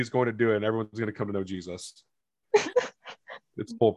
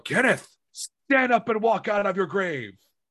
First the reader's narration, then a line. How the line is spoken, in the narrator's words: I'm going to yell